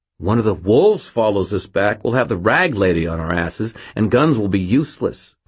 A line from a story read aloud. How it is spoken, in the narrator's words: Fitz snapped